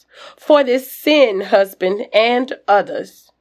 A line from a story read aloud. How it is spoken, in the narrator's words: Betsy shouts